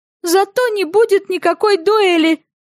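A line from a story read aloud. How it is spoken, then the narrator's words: Anguished exclamation. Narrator (Russian): С надрывом в голосе воскликнула она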